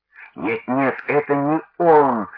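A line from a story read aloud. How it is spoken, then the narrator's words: Groaning. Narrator (Russian): застонали апостолы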